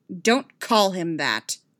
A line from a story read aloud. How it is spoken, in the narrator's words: she snapped